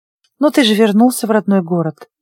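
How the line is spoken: Soft. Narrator (Russian): мягко сказала я

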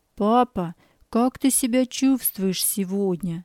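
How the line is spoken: Quiet question. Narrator (Russian): спросил тихо

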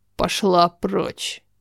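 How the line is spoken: Rude. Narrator (Russian): Сказано грубо

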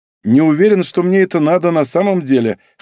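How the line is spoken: Wry snort on phone. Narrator (Russian): хмыкнул я в трубку

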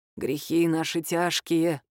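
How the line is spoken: Creaky voice, father. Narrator (Russian): проскрипел отец Милены

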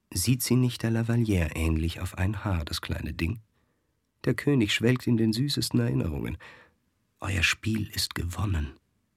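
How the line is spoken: Soft lisping whisper. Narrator (German): Leise lispelte die Maintenon der Scuderie zu

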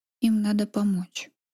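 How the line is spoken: Very quiet, to himself. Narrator (Russian): проговорил совсем тихо, словно сам для себя

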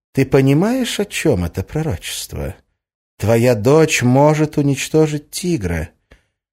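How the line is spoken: Ingratiating. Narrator (Russian): вкрадчиво произнесла

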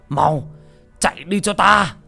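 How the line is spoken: Desperate yell. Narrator (Vietnamese): Ông Kiều Nam gào lên

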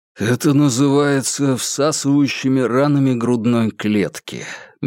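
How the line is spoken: Soft. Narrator (Russian): мягко произнес Курц

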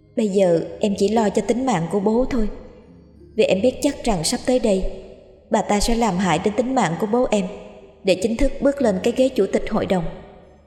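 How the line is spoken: Subdued, continuing. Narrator (Vietnamese): Lộ khẽ cúi đầu, đoạn tiếp tục nói

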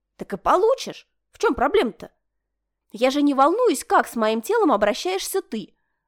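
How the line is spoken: Snapping back. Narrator (Russian): Огрызнулась она

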